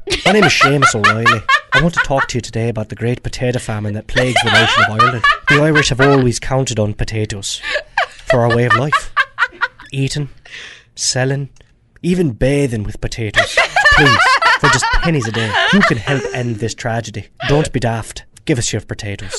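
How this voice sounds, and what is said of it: Put-on Irish accent. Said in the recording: “That was his Irish impersonation,”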